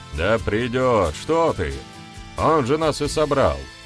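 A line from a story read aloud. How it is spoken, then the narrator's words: Shouted exclamation. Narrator (Russian): выкрикнул ведун Красный Лист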